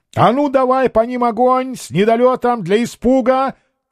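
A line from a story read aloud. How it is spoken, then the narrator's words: Shouted order. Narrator (Russian): крикнул Меньшиков пушкарям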